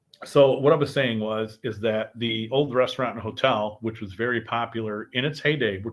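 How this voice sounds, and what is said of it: Voice affected by a cold. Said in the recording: “as you hear in my voice, I'm fighting a little bit of a cold.”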